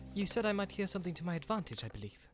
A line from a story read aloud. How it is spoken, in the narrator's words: said Frodo